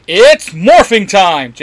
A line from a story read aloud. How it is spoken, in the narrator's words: Jason shouts